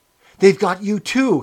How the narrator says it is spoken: he cried

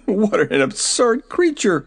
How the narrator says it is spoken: he exclaimed

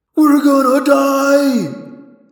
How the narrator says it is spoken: David yelled in thought-speak panic

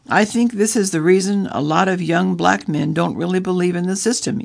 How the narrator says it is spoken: said

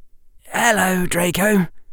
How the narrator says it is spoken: Harry said quietly

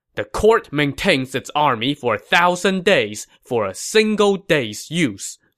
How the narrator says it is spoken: Sima Yi said sternly

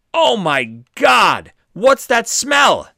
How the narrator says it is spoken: Dave and LaPlaca were walking up the street towards the RV and began yelling

